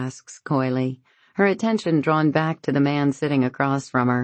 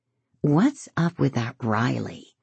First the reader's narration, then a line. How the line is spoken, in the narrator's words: Lauren asks him in a quiet voice